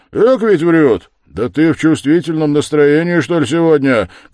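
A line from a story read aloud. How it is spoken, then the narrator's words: Shouted. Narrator (Russian): крикнул Разумихин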